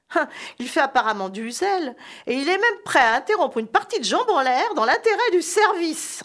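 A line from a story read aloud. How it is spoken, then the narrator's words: Sneering laugh. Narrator (French): ricana son collègue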